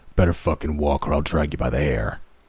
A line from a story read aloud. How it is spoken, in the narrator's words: growled the deep voice from her captor from behind